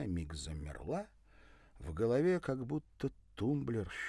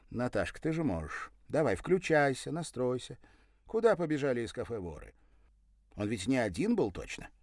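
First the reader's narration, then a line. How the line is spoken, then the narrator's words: Stern voice. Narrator (Russian): сестра строгим голосом произнесла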